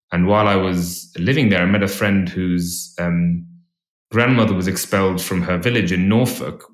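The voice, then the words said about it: English-influenced accent. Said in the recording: “as you can probably tell from my accent, I've spent a lot of time in England, my mum's English.”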